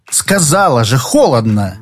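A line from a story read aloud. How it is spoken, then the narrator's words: Irritated snap, woman. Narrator (Russian): Раздраженно бросила блондинка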